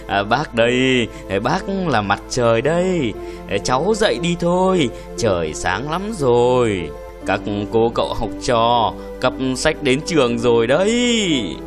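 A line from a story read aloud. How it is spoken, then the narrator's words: Deep warm voice. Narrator (Vietnamese): Một giọng nói ồm ồm ấm ấm vang lên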